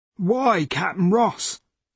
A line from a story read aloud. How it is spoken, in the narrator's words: said Judd, in a weak and trembling voice